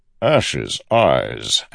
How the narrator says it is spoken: Amaram said, chuckling

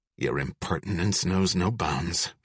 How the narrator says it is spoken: Fox muttered

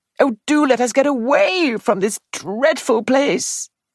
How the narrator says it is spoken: she wailed

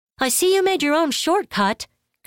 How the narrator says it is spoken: Karima shouted

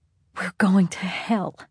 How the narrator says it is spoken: Claire whispered in Locke's ear

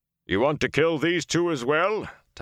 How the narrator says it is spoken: Tom asked, his voice booming as it did when he performed

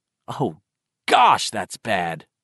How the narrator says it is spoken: Ben had exclaimed

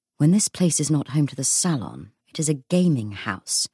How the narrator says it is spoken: Matthew whispered to Cordelia

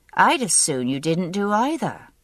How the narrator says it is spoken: said dryly

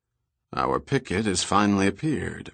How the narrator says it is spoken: Murdoch said quietly

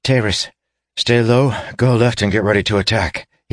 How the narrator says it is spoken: he gasped

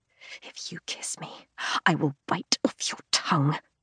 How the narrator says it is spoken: I whisper

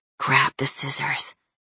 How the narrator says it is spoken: A strange voice had interrupted my thoughts and whispered

